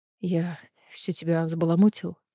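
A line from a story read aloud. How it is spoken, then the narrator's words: Trembling voice. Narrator (Russian): дрожащим голосом произнес Кассиан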